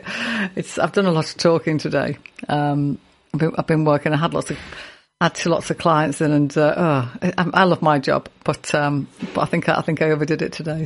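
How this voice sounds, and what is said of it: Hoarse, fading voice. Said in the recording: “I haven't got much of a voice this evening ... my voice is going a bit ... So my voice is coming and going. So if I ever go to a squeak, it is still me”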